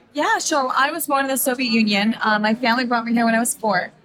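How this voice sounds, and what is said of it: Hoarse, strained voice. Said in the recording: “I kind of lost my voice”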